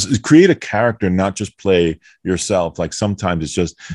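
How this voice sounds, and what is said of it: Usual voice. Nothing is said of it.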